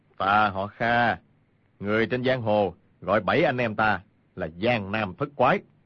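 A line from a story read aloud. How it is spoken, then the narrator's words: Cold. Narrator (Vietnamese): Kha Trấn Ác lạnh lùng nói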